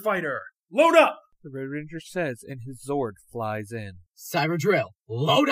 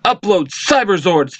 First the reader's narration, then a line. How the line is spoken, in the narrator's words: they shout